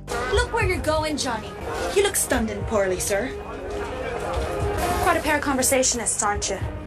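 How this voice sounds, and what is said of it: Unconvincing fake Irish accent. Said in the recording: “not a great accent ... Cameron Diaz in Gangs of New York with a terrible Irish accent”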